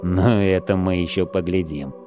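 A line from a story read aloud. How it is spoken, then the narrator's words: Gloomy promise. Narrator (Russian): мрачно пообещал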